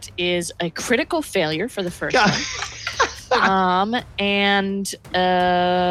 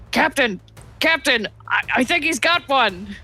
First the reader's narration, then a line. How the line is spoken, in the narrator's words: is going to yell